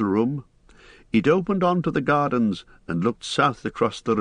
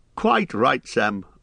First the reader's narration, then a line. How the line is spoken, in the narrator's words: laughed Bilbo